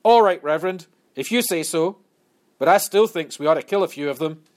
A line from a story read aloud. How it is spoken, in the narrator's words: One black man shouted out